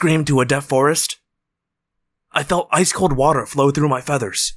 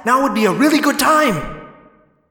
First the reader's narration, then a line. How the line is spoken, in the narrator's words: I screamed